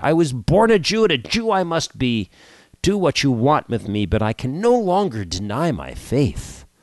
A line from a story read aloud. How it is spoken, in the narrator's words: cried